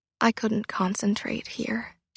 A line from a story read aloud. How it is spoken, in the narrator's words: said quietly